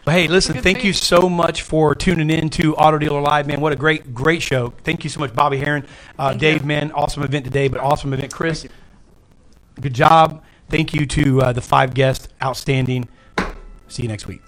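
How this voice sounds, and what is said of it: Polished radio-announcer voice. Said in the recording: “Look at that radio voice.”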